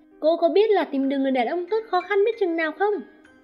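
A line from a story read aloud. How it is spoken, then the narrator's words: Furious yell. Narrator (Vietnamese): Cô nàng tức giận, tức tối hét lên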